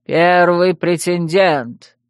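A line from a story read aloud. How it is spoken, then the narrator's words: Loud announcement. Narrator (Russian): громко объявил Одан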